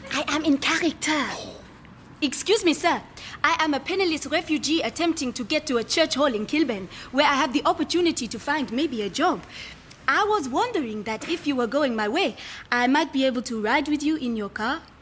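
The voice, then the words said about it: Put-on strange foreign accent. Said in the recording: “strange accent”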